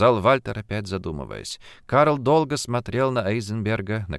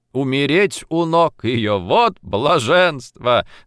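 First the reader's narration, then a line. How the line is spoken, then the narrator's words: Loud, bursting into laughter. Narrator (Russian): докончил громко Карл и покатился со смеху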